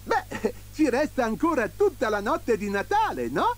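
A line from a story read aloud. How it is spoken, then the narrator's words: Beaming exclamation. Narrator (Italian): esclamò Babbo Natale raggiante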